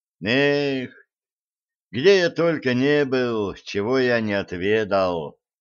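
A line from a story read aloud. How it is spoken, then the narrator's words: Nostalgic sigh. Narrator (Russian): ностальгически вздохнул Блад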